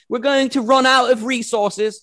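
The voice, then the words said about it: Put-on Australian or South African accent. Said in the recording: “Sorry for the accent. I have no idea if that was Australian or South African or what.”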